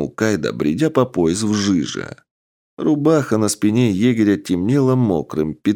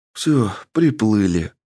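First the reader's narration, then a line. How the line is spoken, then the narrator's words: Dejected voice. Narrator (Russian): упавшим голосом сообщил Макс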